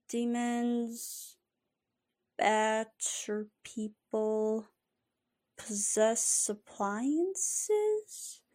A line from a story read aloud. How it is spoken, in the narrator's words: Gus mumbled to himself